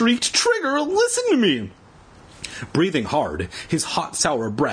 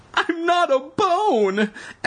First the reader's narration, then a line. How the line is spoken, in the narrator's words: Evan cried frantically